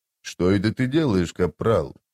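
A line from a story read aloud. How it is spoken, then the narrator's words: Quiet, through teeth. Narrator (Russian): тихо процедил он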